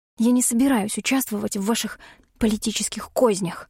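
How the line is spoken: Menacing whisper. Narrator (Russian): угрожающе прошептала

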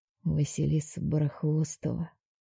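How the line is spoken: Barely audible whisper. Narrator (Russian): шепчет он себе под нос чуть слышно

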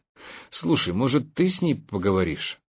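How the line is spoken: Timid suggestion. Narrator (Russian): робко предложил я

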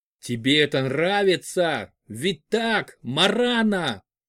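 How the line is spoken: Shout. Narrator (Russian): крикнул Патрик

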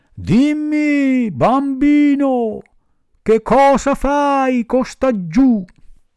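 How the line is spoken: Big pigeon shouting from above. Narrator (Italian): un grosso colombo gli gridò da una grande altezza

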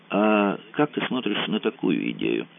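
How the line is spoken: Quiet. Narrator (Russian): сказал Мазур тихонько

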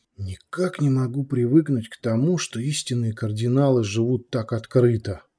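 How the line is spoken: Whisper. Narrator (Russian): прошептал Артем

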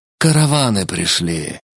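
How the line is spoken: Breathed out. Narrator (Russian): выдохнул он

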